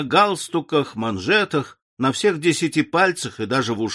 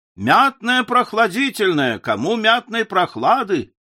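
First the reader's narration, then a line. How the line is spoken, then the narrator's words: Deafening shout. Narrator (Russian): кричал один оглушительным голосом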